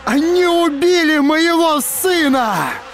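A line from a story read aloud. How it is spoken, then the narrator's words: Shouting at full voice. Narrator (Russian): Закричал Торн изо всех сил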